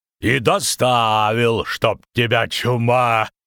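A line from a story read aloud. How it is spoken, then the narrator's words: Loud laughter. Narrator (Russian): захохотал Гербольд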